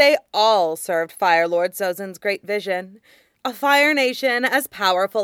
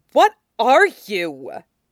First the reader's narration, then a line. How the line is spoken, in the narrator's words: Azula snarled